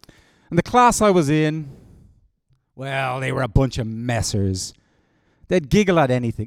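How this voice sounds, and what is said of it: Irish Dublin accent. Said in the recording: “I attended a school called St. Mark's Community School in Talla in Dublin. That's in Ireland, for those of you who don't know where this accent's from.”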